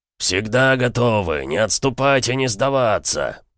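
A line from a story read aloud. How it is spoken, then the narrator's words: Roaring. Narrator (Russian): проревел Эмик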